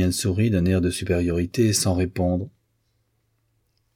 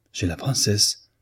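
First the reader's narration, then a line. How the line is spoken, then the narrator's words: Exclaimed. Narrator (French): s'écria Victor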